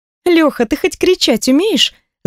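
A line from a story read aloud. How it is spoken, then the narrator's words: Laughing. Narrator (Russian): засмеялась Ника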